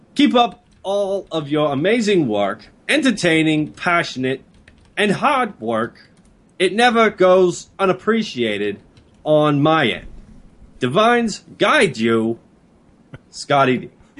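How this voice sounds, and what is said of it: Imitates another person's voice. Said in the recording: “what accent is that? Boston, South Carolina, New York? ... That is my bad walking ... your Christopher Walken impression”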